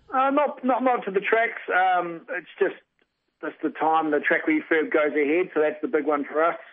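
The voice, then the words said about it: New Zealand accent. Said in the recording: “people can tell by your accent, of course, your family heritage is New Zealand”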